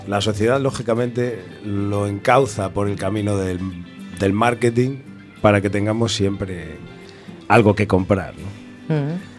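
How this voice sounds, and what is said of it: Very deep, sepulchral voice. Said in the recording (Spanish): “tengo una voz de ultratumba”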